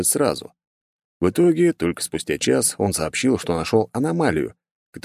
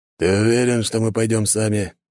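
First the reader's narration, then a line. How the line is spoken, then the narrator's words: Hesitant question. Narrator (Russian): неуверенно спросил волчара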